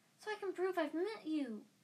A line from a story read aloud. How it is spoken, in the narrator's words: said Colin Creevy eagerly